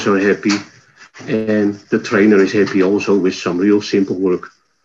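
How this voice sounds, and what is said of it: Dutch accent. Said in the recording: “you're obviously from Northern Europe ... My accent is from the Netherlands, of course”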